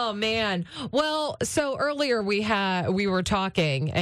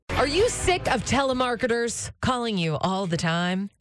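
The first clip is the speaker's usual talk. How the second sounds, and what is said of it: Infomercial announcer-style delivery. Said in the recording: “I sound like an infomercial?”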